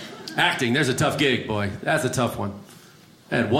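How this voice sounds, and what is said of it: Usual voice. Nothing is said of it.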